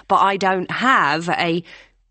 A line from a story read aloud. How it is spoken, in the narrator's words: Hannah said impatiently